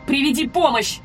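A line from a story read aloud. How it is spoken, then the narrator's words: Shout. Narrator (Russian): крикнула я Глэйн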